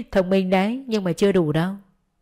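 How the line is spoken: Smiling approving. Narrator (Vietnamese): Thư mỉm cười tán thưởng

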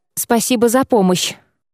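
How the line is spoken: Dazed breathless exhale. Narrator (Russian): ошалело выдохнула

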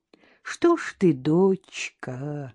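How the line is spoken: Sorrowful drawl. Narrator (Russian): горестно протянул бомж

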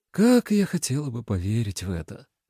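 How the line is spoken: Tired speech. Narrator (Russian): сказала она устало

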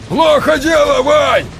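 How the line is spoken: Shouting over gunfire. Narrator (Russian): орал Белугов, перекрикивая стрекотание автоматов

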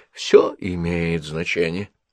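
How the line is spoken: Soft gentle speech. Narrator (Russian): мягко сказал Пуаро

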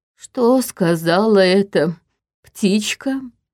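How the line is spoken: Hoarse, strained question. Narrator (Russian): севшим голосом спросил Черим

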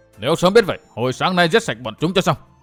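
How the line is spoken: Resentful angry. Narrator (Vietnamese): Thương Thiếu Lão Hồng tức tối hậm hực nói

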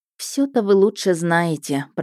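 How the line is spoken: Displeased grumble. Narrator (Russian): проворчала я недовольно

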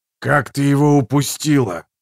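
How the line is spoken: Furious hiss. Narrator (Russian): в ярости прошипел Халлек

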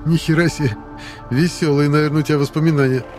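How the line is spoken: Short amused laugh. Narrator (Russian): хохотнул подкидыш

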